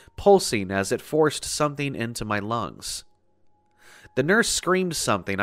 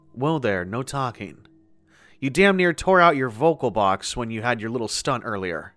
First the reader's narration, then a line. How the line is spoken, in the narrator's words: she said in a stern but kind voice